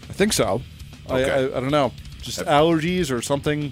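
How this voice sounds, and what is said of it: Congested, stuffy-nosed voice. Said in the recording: “You could probably hear in my voice I'm a little congested right now.”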